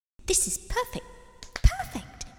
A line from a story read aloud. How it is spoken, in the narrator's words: one witch delighted